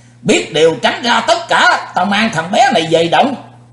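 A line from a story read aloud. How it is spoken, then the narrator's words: Loud shout. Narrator (Vietnamese): Sư diện quái ma nhảy bổ tới quát lớn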